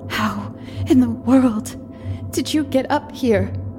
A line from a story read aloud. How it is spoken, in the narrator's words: I stammered to him across the empty room, amazement momentarily stemming my fear